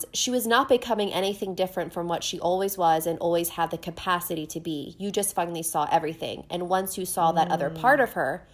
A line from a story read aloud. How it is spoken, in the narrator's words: Dorian said quietly